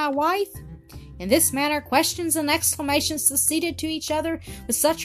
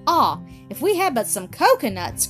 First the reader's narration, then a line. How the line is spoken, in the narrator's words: cried Ernest